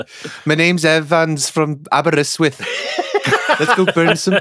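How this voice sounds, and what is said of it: Put-on Welsh accent. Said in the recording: “the Angry Welsh Legion... accent”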